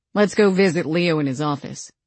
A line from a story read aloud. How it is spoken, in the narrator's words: Eli said, his voice hard and emotionless